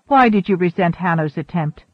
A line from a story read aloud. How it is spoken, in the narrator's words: Svoboda asked quickly